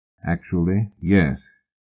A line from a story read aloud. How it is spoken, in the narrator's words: Fraser said slowly